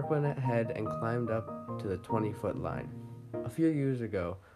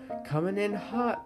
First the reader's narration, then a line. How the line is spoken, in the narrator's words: Mark yelled